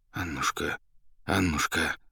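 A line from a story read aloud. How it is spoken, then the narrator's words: Anxious mumbling. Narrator (Russian): забормотал поэт, тревожно озираясь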